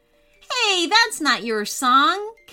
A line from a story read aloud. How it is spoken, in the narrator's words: Caleb laughed